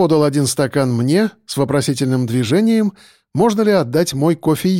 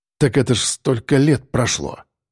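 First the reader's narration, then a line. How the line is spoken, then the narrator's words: Grumbled. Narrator (Russian): пробурчал Черноусов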